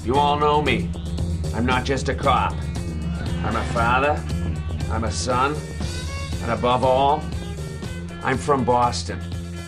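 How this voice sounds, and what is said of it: Exaggerated Boston accent. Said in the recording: “Boston accent... a Boston accent that's not going for a laugh... nobody sounds like this”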